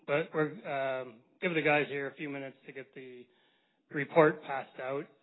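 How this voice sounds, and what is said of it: Hoarse voice. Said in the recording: “Apologize for my voice. I'm still getting over a cold”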